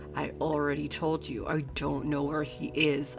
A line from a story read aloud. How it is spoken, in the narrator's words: I growled